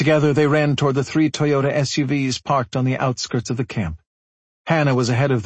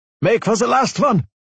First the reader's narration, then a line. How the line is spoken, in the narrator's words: Jonas called out